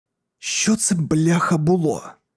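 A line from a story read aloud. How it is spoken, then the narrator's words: Whispered in the ear. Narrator (Ukrainian): прошепотіла мені у вухо Кастін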